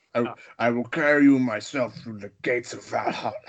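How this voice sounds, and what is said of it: Imitates a movie villain's voice. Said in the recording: “doing a Morton Joe impression. We can do a Morton Joe back and forth”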